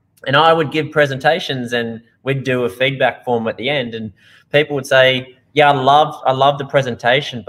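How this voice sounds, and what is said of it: Strong Australian accent. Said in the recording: “as you can hear, I have a pretty bad accent. So I'm from Australia originally ... I sound a little bit like Steve Irwin, or a lot like Steve Irwin”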